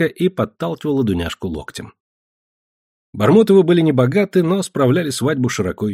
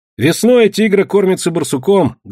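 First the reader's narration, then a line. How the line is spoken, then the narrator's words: Loud storytelling. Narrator (Russian): громко рассказывал Илюшка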